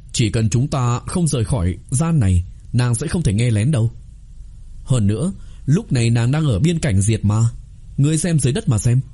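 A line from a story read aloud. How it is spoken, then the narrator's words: Smiling. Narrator (Vietnamese): Trí Đốc mỉm cười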